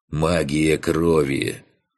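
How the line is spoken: Calm explaining. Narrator (Russian): спокойно пояснил Фантик

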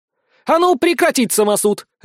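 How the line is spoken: Barked. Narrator (Russian): рявкнула блондинка

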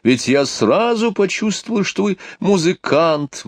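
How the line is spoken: Exclaimed. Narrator (Russian): воскликнула

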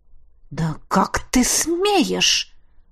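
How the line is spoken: Hissing. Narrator (Russian): прошипела она

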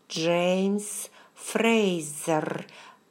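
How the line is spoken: Through clenched teeth. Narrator (Russian): процедила я сквозь стиснутые зубы

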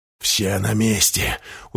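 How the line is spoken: Satisfied mutter. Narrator (Russian): удовлетворенно пробормотал Дорофеев

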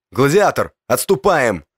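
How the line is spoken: Shout. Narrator (Russian): крикнул мне Щеглов

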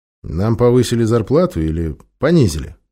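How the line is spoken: Wry snort. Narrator (Russian): хмыкнул

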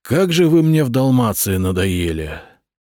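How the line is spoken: Weary sigh. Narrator (Russian): вздохнул Виттерих

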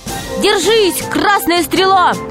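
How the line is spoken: Crowd shouting from stands. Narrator (Russian): кричали с трибун

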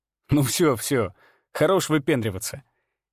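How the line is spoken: Chuckling. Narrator (Russian): Я хохотнул

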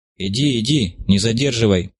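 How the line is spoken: Indistinct grumbling. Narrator (Russian): невнятно забурчав

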